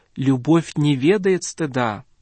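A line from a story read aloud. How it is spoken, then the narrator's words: Plain. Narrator (Russian): говорит Авва Исаак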